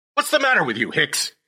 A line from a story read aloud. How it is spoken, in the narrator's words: barked